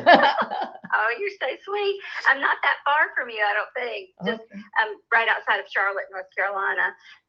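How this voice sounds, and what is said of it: North Carolina Southern accent. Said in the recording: “this is a very beautiful North Carolina accent”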